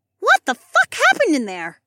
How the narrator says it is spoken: Ilara squeaked

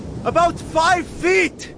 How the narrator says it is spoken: Thor finally shouted from the plane

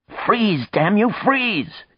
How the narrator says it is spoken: She cried

